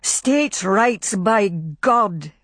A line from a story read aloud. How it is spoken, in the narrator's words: shouted over and over